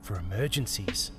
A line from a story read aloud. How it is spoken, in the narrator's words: whispered